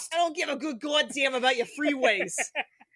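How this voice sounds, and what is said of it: Put-on accent. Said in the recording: “That was probably the best accent I've ever done.”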